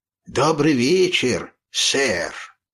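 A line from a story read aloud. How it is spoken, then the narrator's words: Hoarse bass babble. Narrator (Russian): Пролепетал снова хриплым басом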